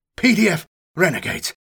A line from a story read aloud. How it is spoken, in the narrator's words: I gasped, feeling the air begin to rasp in my lungs